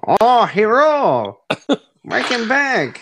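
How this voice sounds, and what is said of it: Weird put-on character accent. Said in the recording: “Weird accent, Marv. I'll give him a new accent every time you see him.”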